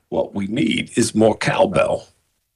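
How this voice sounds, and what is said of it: Imitates another person's voice, weak attempt. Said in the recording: “my Temu version of Christopher Walken”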